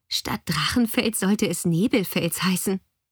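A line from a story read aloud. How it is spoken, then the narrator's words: Giggling. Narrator (German): kicherte Lea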